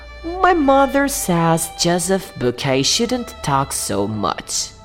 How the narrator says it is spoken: one of the girls said quietly

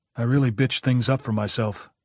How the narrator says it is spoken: said evenly

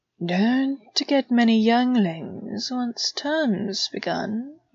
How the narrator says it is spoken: he spoke softly

